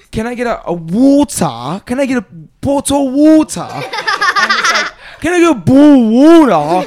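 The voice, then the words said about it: Exaggerated mock British accent. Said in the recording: “that's what Americans think, that people from Britain are talking about”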